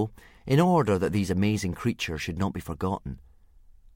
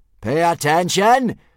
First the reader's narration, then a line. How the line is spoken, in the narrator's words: screamed Gobber the Belch, the soldier in charge of teaching initiation